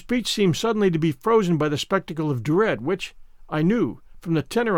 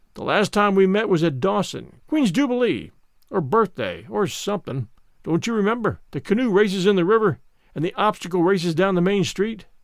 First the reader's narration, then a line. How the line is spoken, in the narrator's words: for all his voice sounded hearty and genial, as he said